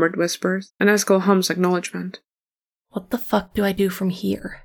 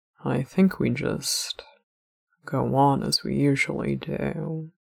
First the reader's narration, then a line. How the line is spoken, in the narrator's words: Eskel murmurs at last